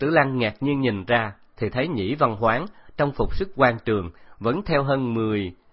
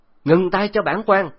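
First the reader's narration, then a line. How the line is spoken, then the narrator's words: Loud distant shout. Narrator (Vietnamese): một tiếng hét to truyền đạt lại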